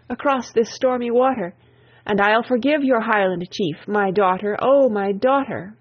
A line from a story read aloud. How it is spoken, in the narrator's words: he cried in grief